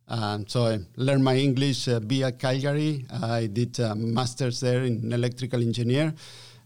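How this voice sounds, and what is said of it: Non-US foreign accent in English. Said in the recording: “Your accent gives you away, so you're not from the U.S.”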